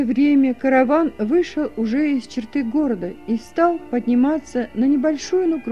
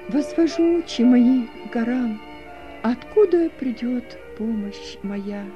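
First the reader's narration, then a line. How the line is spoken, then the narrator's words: Spoken quietly. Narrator (Russian): тихо произнесла Сара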